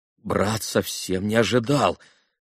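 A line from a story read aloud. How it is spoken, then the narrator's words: Mumbled, breaking off. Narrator (Russian): пробормотал было Алеша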